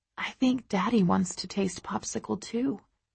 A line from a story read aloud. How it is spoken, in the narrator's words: I whisper in Ted's little ear